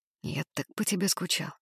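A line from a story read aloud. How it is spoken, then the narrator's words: Quiet speech. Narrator (Russian): тихо сказал я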